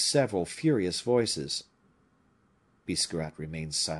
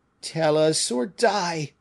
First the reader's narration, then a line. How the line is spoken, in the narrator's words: cried the wounded man